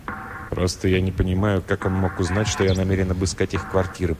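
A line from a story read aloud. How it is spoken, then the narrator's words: Mutter. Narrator (Russian): пробормотал Флендри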